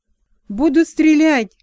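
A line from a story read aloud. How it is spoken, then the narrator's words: Shouted. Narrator (Russian): крикнула Мона Сения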